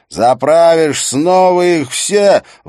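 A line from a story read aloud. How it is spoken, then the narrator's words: Ecstatic yelling. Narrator (Russian): в восторге от собственной идеи вопил он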